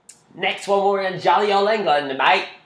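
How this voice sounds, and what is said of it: Attempted English accent, sounded Australian. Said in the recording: “That was Australian. ... I can't do accents.”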